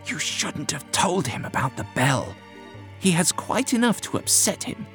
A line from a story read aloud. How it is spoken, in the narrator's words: Whittam hissed to the doctor